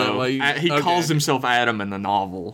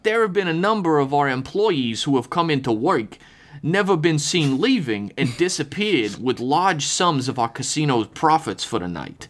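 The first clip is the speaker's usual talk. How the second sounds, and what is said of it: A put-on accent. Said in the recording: “This is a really good accent.”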